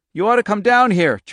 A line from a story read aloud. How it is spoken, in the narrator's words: Charlie cried loudly